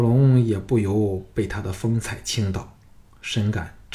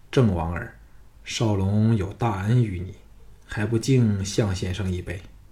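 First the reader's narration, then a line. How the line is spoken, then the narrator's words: Tender, warm, pleasant voice. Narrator (Chinese): 庄襄王的眼光落到朱姬和小盘处，眼神更温柔了，以他那充满感情的好听声音说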